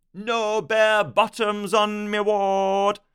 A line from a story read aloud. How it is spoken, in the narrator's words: the nurse shouted